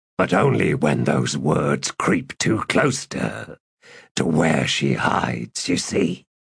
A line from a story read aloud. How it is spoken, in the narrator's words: Gruntle had explained